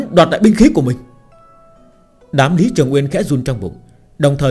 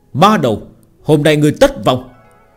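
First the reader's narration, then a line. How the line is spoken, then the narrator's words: Angry loud shout. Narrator (Vietnamese): Lữ Phụng Tiên sắc mặt giận dữ chỉ tay vào Phương Hành hét lớn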